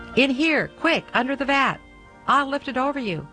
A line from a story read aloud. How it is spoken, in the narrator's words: Pierre the Cooper called excitedly